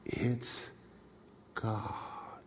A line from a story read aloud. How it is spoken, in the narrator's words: she whispered